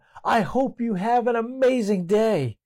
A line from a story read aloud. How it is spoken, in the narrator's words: he decided to yell out